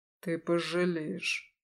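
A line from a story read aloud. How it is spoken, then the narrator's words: Quiet promise. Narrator (Russian): тихо пообещал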